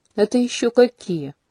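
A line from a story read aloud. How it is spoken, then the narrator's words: Snide inquiry. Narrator (Russian): ехидно осведомился князь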